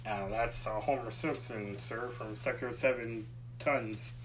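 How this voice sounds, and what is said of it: Poor Smithers impression. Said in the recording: “I just did the voices ... that was my Smithers ... Your Smithers is horrible”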